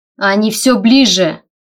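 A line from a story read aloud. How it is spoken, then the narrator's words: Shouted out. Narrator (Russian): выкрикнул он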